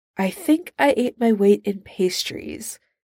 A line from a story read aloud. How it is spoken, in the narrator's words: McCoy sighs